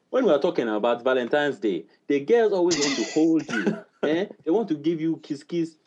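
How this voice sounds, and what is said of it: Put-on African accent. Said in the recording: “if I was fresh off the boat ... I'd sound more like ... work up that accent ... You pretended to be African”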